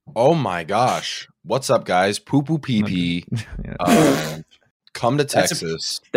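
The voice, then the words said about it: Imitates another person's voice. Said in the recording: “That is a pretty good impression.”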